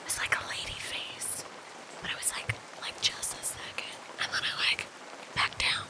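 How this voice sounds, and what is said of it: Whispering. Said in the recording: “that's why I'm whispering”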